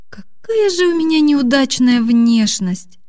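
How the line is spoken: Resigned sigh. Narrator (Russian): Обреченно вздохнула Аня

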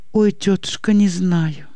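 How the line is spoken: Quiet sobbing. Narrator (Russian): тихо всхлипывает и Анна

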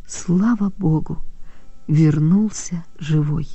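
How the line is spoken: Barely audible. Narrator (Russian): Она еле слышно проговорила

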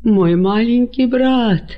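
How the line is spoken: Moaning. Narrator (Russian): простонал он

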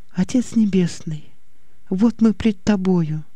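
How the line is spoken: Whisper. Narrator (Russian): Послышался ее шепот

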